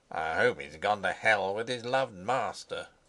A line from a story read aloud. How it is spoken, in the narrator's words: grunted Sapt, but he had the grace to lower his voice and shield his mouth with his hand